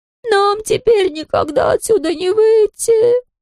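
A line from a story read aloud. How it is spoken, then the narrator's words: Overlapping whining voices. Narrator (Russian): скулили наперебой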